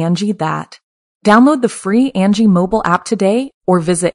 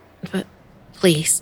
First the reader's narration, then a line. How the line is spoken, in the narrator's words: I stammered